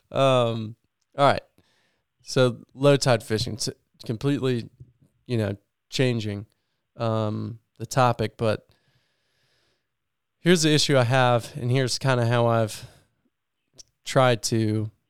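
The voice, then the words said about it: Voice sounds sick and messed up. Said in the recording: “my voice is probably all messed up. I've been sick for like a week.”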